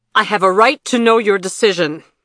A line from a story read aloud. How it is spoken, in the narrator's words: Vandara shouted, her face twisted with rage